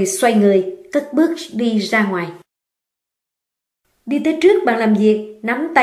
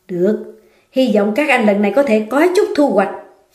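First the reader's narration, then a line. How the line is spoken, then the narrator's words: Angry through gritted teeth. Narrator (Vietnamese): Đỗ Dân Phi tức giận nghiến răng nghiến lợi nói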